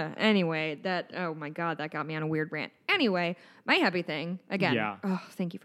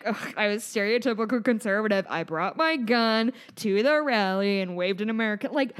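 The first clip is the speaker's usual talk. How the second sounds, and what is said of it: Sarcastic mocking tone. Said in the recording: “didn't you hear the sarcasm in my voice?”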